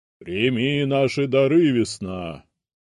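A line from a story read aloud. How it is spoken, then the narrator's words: Loud proclamation, mage. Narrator (Russian): громко произнес один из магов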